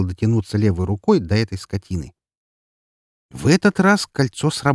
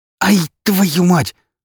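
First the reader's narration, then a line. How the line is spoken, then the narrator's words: Pained hiss. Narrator (Russian): зашипел я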